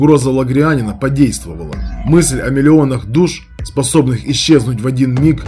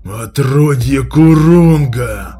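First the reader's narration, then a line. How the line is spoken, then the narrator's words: Hoarse rasp. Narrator (Russian): Прохрипел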